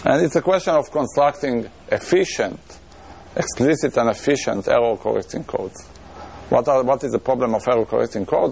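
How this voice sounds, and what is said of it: Israeli accent. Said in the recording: “my Israeli accent that is adding to the problem”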